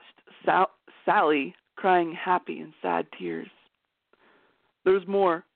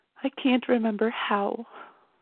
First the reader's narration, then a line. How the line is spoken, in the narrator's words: she whispered